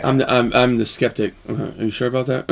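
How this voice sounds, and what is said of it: Skeptical cynic character voice. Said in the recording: “my impression of a cynic”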